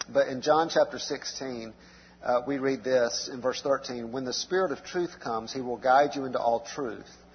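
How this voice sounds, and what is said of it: Strained, hoarse voice. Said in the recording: “apologize for my voice tonight ... I'm going to try to talk a little lower, so hopefully my voice will hold out. I sound worse than I feel.”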